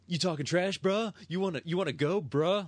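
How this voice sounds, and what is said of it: Fake California accent. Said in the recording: “fake California accent”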